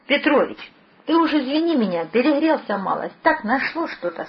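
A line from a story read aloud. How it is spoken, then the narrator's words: Embarrassed, forced out. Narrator (Russian): смущенно выдавил Савелий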